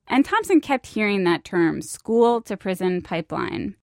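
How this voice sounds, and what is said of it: Creaky vocal fry. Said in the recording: “hear the way that her voice kind of creaks on the word pipeline. That's vocal fry.”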